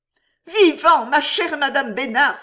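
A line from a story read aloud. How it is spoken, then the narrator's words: Exclaimed. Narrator (French): s'écria-t-elle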